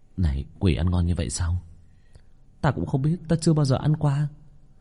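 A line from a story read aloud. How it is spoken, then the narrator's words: Mumbling. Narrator (Vietnamese): Có nhân sĩ đuổi quỷ nhuốt nước bọt, lầm bầm với đồng bọn ở bên cạnh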